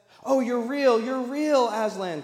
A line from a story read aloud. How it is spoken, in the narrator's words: cried Lucy